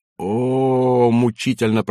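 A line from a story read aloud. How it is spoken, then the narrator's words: Anguished moan. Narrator (Russian): простонал Тамми Лехто, почти умирая от того, что не может быть вот таким, как этот старый вояка с выщербленными зубами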